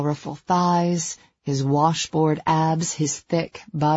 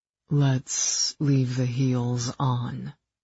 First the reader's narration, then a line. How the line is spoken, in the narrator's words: he murmured